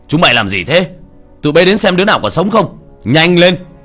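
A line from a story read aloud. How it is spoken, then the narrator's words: Loud shout from outside. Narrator (Vietnamese): tiếng ông trùm từ ngoài cửa đã hét lớn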